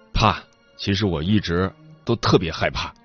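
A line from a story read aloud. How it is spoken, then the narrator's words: Stiff awkward laugh. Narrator (Chinese): 他僵硬的笑了两声，尴尬的说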